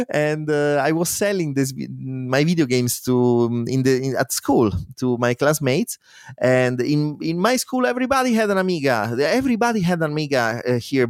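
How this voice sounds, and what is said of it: Italian accent. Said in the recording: “my Italian accent”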